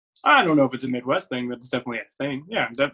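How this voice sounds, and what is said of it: Noticeable regional accent. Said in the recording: “I loved your accent right there.”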